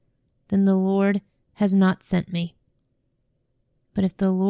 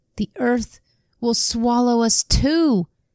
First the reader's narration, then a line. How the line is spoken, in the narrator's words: they cried